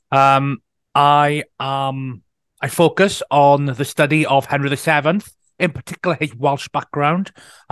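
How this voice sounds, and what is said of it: West Wales accent. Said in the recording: “I'm an author and historian from West Wales, which everyone can probably instantly tell from my accent.”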